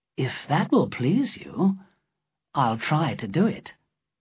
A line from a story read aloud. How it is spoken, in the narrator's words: said softly